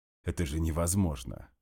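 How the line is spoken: Snort. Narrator (Russian): хмыкнул Макаров

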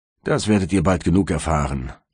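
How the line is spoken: Gruff male reply. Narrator (German): erwiderte ein Mann mit barscher Stimme

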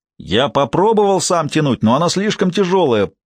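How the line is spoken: Shouted. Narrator (Russian): прокричал Харзион

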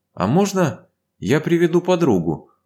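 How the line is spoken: Timid question. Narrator (Russian): робко спросила Ева

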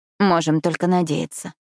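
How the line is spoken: Dry reply. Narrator (Russian): сухо ответила

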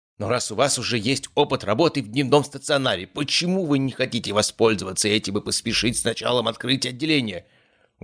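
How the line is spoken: Exclaimed. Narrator (Russian): воскликнул Гаврилов

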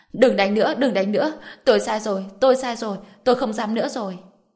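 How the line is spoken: Terrified screaming. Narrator (Vietnamese): Dương Quế Lan sợ hãi đến mức hét lên

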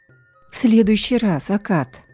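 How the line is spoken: Tired promise. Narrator (Russian): устало пообещала я

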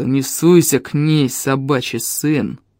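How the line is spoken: Growl. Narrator (Russian): прорычал Эльм

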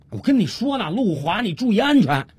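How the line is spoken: Anxious shout. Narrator (Chinese): 小五心里急啊，于是他又接着喊了一句

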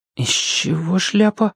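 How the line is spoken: Whispered question. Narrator (Russian): шепотом спросила Алешка у Маши

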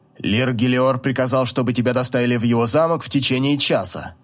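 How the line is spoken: Cold old man. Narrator (Russian): Холодно ответил старик

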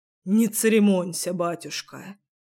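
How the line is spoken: Muffled reply. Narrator (Russian): отвечал тот глухо

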